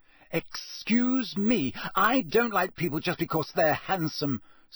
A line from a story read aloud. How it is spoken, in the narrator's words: said Hermione indignantly